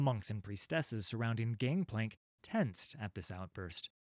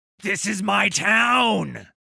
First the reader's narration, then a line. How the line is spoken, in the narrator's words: he screamed